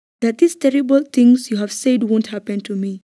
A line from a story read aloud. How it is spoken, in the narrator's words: Simon exclaimed